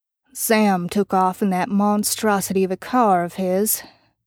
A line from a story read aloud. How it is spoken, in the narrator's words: Bobby stated flatly